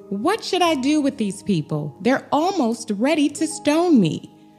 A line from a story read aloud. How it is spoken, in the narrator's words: Moses cried out to the Lord